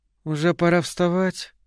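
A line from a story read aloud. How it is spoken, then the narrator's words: Sleepy. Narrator (Russian): она сказала сонно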